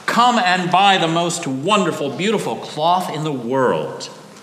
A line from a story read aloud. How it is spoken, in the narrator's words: the children all called out